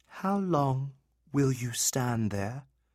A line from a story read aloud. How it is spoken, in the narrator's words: asked in a gentle voice